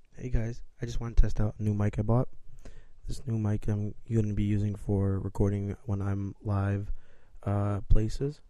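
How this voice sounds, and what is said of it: Raspy, partly lost voice. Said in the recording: “As you can probably tell from my voice, it's a little raspy. I sort of lost my voice”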